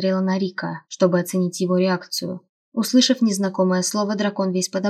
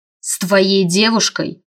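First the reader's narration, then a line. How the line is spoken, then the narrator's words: Hiss. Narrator (Russian): зашипел он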